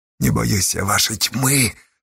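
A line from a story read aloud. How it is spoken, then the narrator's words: Passionate, powerless exhale. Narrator (Russian): со страстью и бессилием выдохнула Асташа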